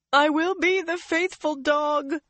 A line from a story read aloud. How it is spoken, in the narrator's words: Leandrin sobbed